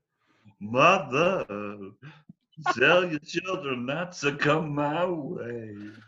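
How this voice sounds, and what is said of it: Lounge-singer style sung imitation. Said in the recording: “my imitation of Marianne singing on Karaoke Biggie ... like a Richard Cheese ... It was very lounge singery”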